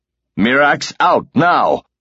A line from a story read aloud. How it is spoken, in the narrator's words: he was shouting